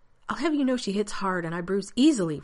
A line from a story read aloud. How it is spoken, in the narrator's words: Rodney says indignantly